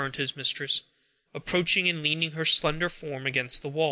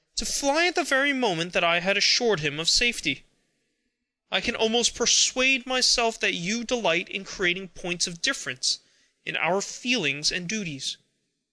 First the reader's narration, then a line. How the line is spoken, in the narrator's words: he cried